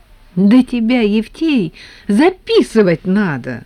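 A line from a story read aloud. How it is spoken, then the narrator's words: Exclaimed. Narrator (Russian): воскликнул Леонтьев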